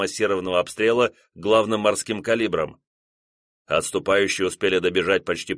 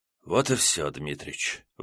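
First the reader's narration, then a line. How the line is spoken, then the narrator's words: Sighing. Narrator (Russian): вздохнул поручик Жуковский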